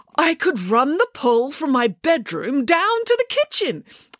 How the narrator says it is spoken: exclaimed Nanny Piggins

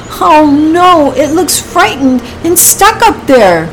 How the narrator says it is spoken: she cried

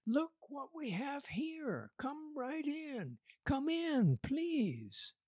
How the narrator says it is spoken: called out to her sister Sarah

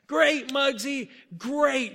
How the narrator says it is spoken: yelled the coach

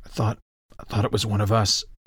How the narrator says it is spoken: Bizig muttered

